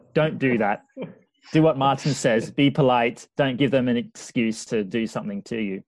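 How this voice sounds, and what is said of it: Australian accent. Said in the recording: “What's your accent? ... Oh, I come from Australia.”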